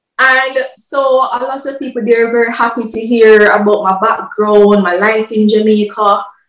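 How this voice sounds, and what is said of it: Jamaican accent. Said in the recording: “my accent or my English”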